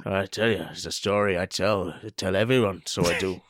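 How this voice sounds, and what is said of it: Inconsistent put-on Irish accent. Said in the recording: “Your Irish accent comes in and out”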